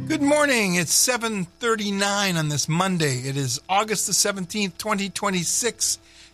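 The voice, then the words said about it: Exaggerated radio announcer voice. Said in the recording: “How's that for a radio voice?”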